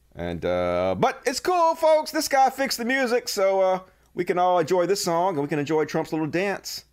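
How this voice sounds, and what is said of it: Southern US accent. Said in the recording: “to have this fucking Southern accent”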